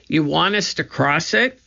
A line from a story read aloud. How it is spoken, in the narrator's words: shouted Annie